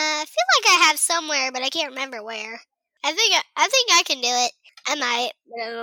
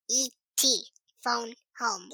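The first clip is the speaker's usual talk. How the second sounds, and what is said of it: E.T. voice impression. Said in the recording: “E.T. phone home thing. They would do the voice ... That's really good. You could do the voice really good.”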